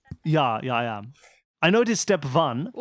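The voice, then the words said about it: Speaks in a put-on accent. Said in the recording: “I've changed my accent.”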